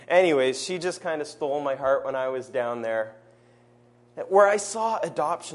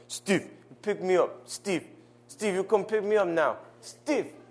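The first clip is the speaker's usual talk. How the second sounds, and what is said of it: Poor imitation of a girl's accent. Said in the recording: “That was my sad attempt at her accent.”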